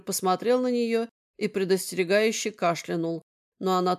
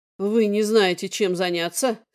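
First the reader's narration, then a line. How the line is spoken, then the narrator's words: Angry growl. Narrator (Russian): сердито рыкнул Эндрю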